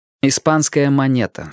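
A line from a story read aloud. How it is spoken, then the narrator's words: Plain. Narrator (Russian): сказал он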